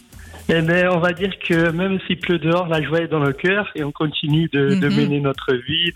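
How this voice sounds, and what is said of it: Singsong regional French accent. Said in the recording (French): “il y a un magnifique accent... des accents comme ça... Ça, ça chante. Ça chante ici”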